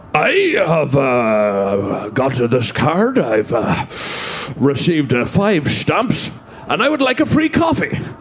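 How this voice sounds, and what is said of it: Imitates another person's voice. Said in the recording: “Here's my impression of Ian Paisley”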